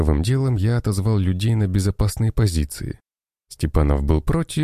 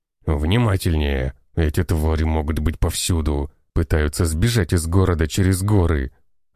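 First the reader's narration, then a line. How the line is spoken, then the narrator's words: Man's growl. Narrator (Russian): рычал мужчина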